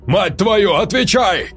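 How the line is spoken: Roar. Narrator (Russian): взревел Харрис

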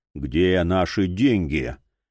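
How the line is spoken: Muffled, hollow question. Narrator (Russian): глухо спросил чемпион

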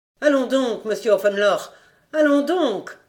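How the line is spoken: Exclaimed. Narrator (French): s'écria-t-elle

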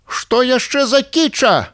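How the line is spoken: Harsh bark. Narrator (Belarusian): гаркнула Розалія

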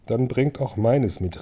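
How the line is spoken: Called out to them. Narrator (German): rief Thorin ihnen zu

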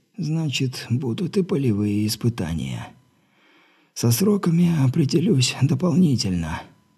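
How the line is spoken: Trembling voice. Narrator (Russian): дрожащим голосом заверил Терри

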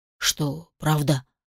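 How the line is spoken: Whisper. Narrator (Russian): прошептал Шен-Лерой

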